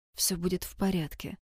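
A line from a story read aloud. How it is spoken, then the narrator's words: Whispered. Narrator (Russian): прошептал он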